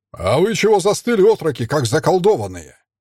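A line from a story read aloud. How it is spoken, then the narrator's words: Barked. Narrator (Russian): рявкнул Наум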